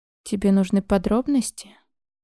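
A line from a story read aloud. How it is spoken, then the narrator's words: Sighed. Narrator (Russian): вздохнул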